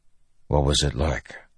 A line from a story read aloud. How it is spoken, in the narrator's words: Dalinar asked softly